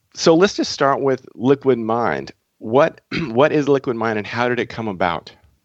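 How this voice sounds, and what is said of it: Slightly raspy voice. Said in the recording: “My voice is a little raspy. I've been under the weather this week”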